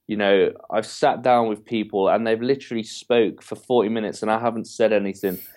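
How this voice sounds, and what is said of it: English accent. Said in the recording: “I have this great English accent ... you had me at British accent.”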